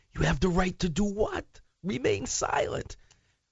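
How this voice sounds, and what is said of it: Impression of Alan Corwin. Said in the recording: “I'll do my Alan impersonation.”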